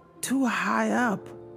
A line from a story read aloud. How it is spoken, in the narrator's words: she gasped